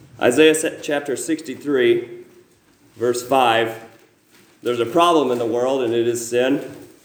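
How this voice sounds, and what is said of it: Weak, sore-throated voice. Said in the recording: “I have a bit of a throat sore, so my voice is weak, and I kind of used it a lot this week, so it's sore in that way too.”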